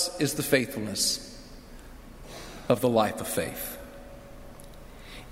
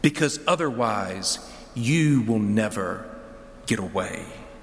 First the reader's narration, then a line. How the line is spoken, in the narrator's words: Jacob hisses into the ear of the stranger